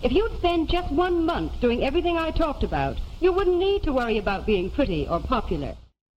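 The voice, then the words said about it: Mid-Atlantic accent. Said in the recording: “Mid-Atlantic accent”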